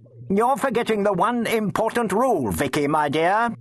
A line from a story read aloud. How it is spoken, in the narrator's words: said testily